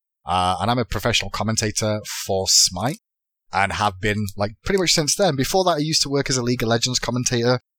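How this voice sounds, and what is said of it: English Manchester accent. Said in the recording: “I'm from England, Manchester originally. That's why I've got an accent... I'm actually English... I'm the one with the accent”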